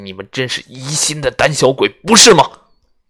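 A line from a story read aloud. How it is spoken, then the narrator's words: Contemptuous, angry. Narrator (Chinese): 隆巴的嘴角露出一丝轻蔑的笑意，依旧怒气冲冲地说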